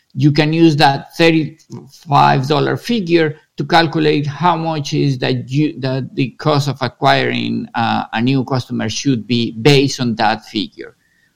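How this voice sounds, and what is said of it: Strong accent. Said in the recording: “my terrible accent”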